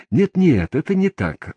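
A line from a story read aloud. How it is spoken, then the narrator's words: Exclaimed. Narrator (Russian): воскликнул он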